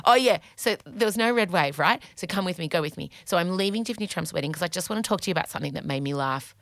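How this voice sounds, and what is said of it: Talking very fast. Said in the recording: “Wait, I've got to slow down. I'm talking so fast.”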